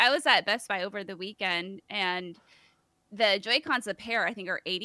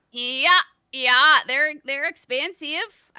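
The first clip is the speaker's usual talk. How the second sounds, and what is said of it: Poor put-on Fargo North Dakota accent. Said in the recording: “my bad take out of Fargo accent, North Dakota. Not great. Not great.”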